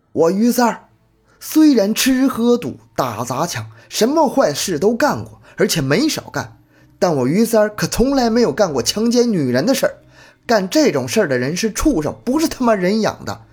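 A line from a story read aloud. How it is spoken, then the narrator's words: Hoarse furious shouting. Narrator (Chinese): 于洪杰突然变得暴躁起来，声嘶力竭地喊着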